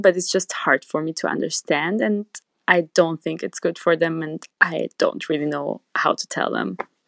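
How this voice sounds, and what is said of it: Hungarian accent. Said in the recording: “I love your freaking accent. I love that you're from Hungary.”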